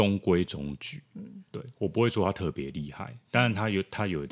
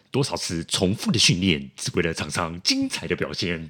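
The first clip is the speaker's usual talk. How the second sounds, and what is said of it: Odd Taiwanese-accented announcer voice. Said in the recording (Chinese): “他有一个很特别的口音 ... 就是那种很奇怪的口音 ... 有点那种台台的口音 ... 你都可以模仿他了耶”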